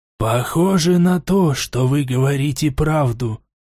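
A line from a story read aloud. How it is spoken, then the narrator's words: Dejected voice. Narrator (Russian): сказал Ли упавшим голосом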